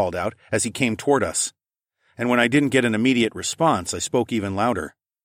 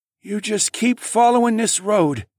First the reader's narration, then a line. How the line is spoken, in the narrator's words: the man finally rasped